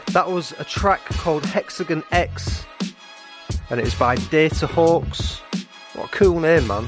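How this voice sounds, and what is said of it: Northern English accent. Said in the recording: “this Northern English accent”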